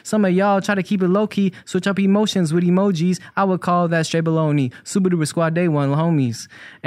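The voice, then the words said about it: Rapping in a little kid voice. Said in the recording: “I'm saying that with the little kid accent, kind of”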